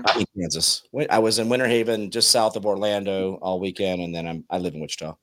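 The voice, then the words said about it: Slightly rough, congested voice. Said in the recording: “my voice is usually a little better than this. I got a little bit of an allergy going on.”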